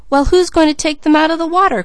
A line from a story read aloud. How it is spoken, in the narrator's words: cried Malcolm